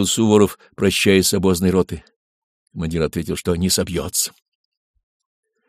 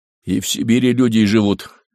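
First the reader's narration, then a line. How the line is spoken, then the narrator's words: Gloomy reply. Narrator (Russian): мрачно ответил командир извозной роты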